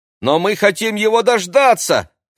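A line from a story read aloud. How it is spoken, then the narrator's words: Shouted. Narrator (Russian): крикнул Максим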